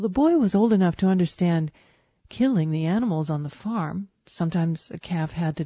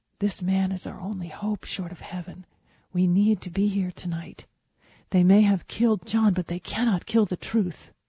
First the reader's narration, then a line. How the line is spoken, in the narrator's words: Mama whisper to Papa